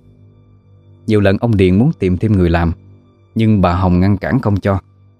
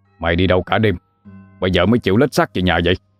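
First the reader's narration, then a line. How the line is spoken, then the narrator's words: Angry shout. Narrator (Vietnamese): ông Điền liền quát lên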